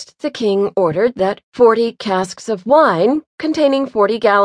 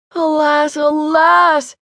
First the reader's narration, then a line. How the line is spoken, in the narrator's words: he exclaimed